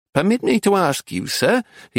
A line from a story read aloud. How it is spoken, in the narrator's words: asked in a squeaky voice